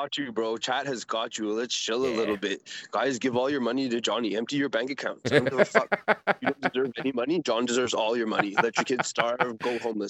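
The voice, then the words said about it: Imitates another person's voice. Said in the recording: “there's my fucking PPP impression”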